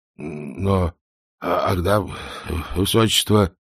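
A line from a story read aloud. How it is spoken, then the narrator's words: Mumbling. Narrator (Russian): пробормотал он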